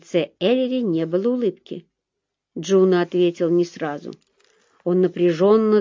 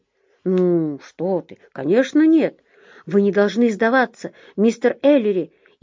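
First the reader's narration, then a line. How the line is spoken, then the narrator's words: Earnest fervent exclamation. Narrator (Russian): искренне горячо воскликнул Джуна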